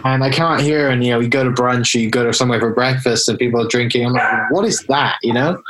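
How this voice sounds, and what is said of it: British accent. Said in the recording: “as you can tell from my accent, I'm from the UK originally”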